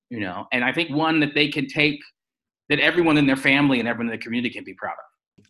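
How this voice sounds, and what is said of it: Slight American accent. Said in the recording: “there's a slight accent ... you are from America originally”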